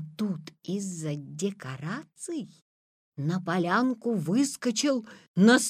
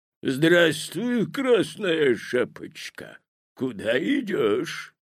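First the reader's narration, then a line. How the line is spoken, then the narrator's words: Hoarse bass. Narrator (Russian): спросил волк хриплым басом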